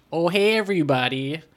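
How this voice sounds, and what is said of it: Put-on Philadelphia accent. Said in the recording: “a Philadelphian accent... It sounds like garbage English... a mixture of like Midwest and New York”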